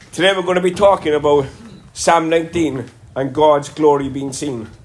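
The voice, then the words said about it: Congested voice, Cork Irish accent. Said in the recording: “I ended up getting a sinus infection. Hence, this is why I'm talking like this. I normally don't... the Cork accent”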